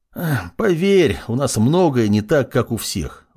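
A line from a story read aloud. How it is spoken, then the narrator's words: Sighing again. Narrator (Russian): вновь вздохнул он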